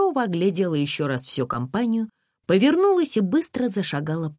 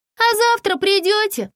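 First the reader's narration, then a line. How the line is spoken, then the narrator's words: Shouted after them. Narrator (Russian): крикнула им вслед Лариска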